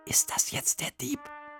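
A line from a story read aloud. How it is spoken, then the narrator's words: Whisper. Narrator (German): flüsterte Emil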